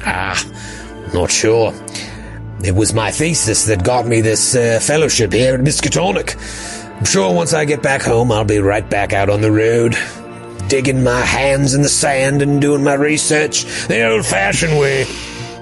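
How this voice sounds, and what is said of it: Put-on Australian nature-presenter accent. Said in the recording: “my amazing Australian accent ... This guy just sounds like he's pointing at various creatures and looking into a camera talking about nature”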